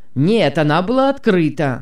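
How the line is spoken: Irritated man objecting. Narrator (Russian): возразил мужчина раздраженно

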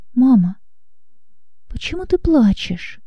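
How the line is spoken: Timid question. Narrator (Russian): робко спросил

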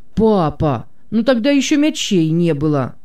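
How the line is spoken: Smiling exclamation. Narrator (Russian): воскликнул Марк, невольно улыбаясь

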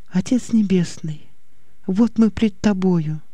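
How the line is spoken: Whisper. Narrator (Russian): Послышался ее шепот

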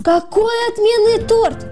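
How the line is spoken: Shouting woman. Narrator (Russian): закричала она

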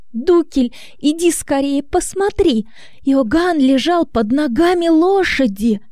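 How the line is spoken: Crying exclamation. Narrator (Russian): Плача, она воскликнула

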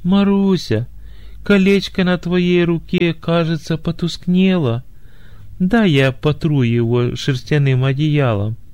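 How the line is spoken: Feigned tenderness hiding indignation. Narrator (Russian): Негодованием закипело сердце жениха, но он скрыл свое возмущение и деланно ласковым голосом сказал

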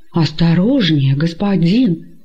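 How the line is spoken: Frightened exclamation. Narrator (Russian): испуганно воскликнул раб

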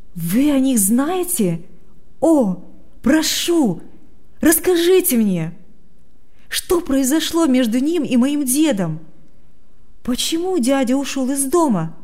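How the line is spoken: Impatient exclamation. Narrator (Russian): воскликнул Адам с нетерпением

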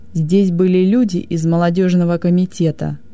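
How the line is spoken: Growl. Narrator (Russian): прорычал он

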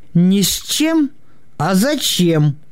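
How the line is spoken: Clarifying. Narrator (Russian): уточнил Букин

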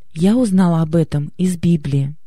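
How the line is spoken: Plain. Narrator (Russian): сказала я

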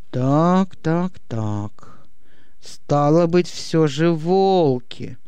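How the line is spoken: Thoughtful, musing to himself. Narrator (Russian): Переспросил, рассудил задумчиво теперь уже больше для себя

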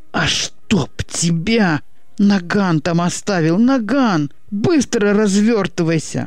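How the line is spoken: Howling as if in pain. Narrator (Russian): Будто от зубной боли взвыл Васька

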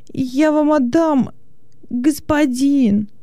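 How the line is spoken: Exclamation. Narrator (Russian): воскликнул он

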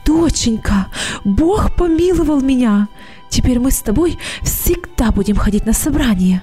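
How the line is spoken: Mother speaking joyfully. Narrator (Russian): мама радостно сказала

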